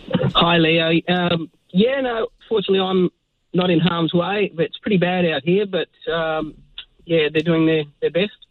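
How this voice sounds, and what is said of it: Australian accent. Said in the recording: “Nice accent”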